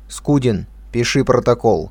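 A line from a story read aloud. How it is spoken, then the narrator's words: Commanding tone. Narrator (Russian): начальствующим тоном произнес Котов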